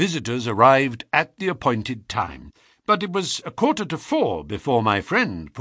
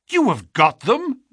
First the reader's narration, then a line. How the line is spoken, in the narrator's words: we cried, all three